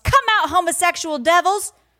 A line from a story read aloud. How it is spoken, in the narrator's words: churchgoers screaming at the top of their lungs